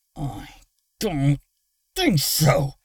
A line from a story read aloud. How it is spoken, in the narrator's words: Luna growled through gritted teeth